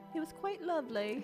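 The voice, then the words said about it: Attempted English accent. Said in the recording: “How's your English accent? ... I suck at that. ... No, it's not bad.”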